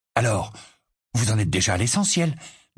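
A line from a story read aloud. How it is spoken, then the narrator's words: Eager. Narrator (French): demanda George d'un ton avide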